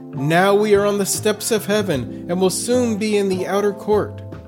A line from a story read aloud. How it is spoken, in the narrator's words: he cried